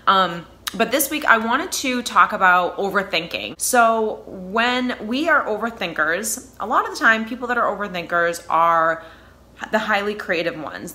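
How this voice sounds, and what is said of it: Slightly hoarse, sick-sounding voice. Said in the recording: “I am a little sick as well, so bear with me. My voice is just a little hoarse this week.”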